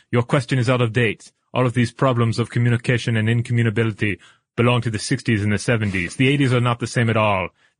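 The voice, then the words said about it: Exaggerated French accent drifting German. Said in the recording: “Is your French accent better than mine? ... in outrageous French ... Now I'm kind of becoming German ... It always becomes Arnold Schwarzenegger.”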